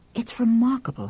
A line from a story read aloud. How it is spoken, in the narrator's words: he murmured